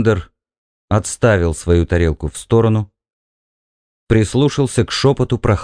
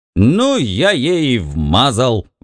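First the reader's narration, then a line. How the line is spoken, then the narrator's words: Shouted. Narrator (Russian): выкрикнул Бикс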